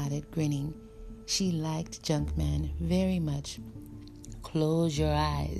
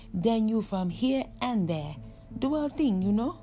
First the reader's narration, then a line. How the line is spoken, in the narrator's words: She laughed